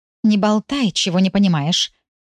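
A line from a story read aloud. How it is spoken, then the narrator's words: Hissing little mouse. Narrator (Russian): зашипела на него серая мышка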